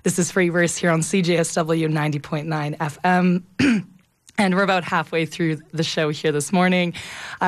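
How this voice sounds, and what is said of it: Hoarse, gravelly voice from a cold. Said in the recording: “You can tell by my voice, I'm another victim of, I feel like, this fall cold that's going around ... my gravelly voice”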